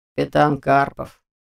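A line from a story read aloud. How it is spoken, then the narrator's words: Gloomy reply. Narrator (Russian): мрачно отозвался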